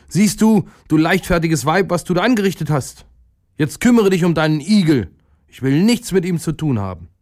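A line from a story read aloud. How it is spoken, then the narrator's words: Angry herdsman calling out. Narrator (German): Da ärgerte sich der Viehhirt und rief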